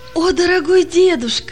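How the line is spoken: Joyful child's exclamation. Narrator (Russian): воскликнул радостно мальчик

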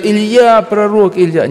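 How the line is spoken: Group shouting. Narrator (Russian): Они закричали

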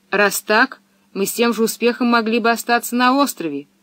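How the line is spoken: Angry declaration. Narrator (Russian): сердито заявил Томми

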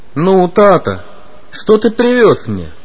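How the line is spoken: Cheerful child's question. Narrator (Russian): весело спросил любимец семьи

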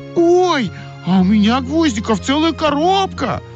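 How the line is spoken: Excited shout. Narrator (Russian): закричала Ойка

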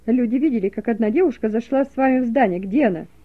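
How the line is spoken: Policeman shouting. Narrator (Russian): закричал милиционер

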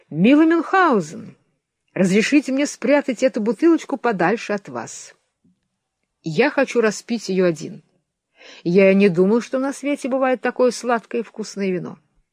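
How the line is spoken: Delighted exclamation. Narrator (Russian): султан пришел в восторг и воскликнул

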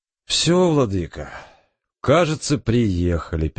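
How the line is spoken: Sad. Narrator (Russian): печально сказал Александр Павлович

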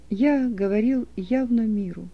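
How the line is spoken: Calm. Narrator (Russian): произнес он спокойно

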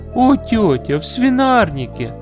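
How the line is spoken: Loud laughter. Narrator (Russian): громко расхохоталась Виннифред

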